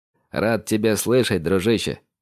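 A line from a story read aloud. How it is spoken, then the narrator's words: Smiling snort. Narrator (Russian): хмыкнул Андрей, улыбаясь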